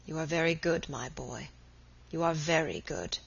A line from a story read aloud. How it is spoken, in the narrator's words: murmured in a broken voice